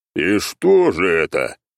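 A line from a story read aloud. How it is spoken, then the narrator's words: Scoffing grunt. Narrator (Russian): хмыкнул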